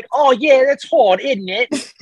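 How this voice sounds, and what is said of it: Put-on London English accent. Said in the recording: “That was London. ... That was fine.”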